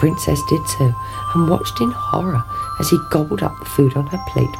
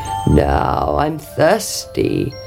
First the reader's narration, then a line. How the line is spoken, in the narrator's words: croaked the frog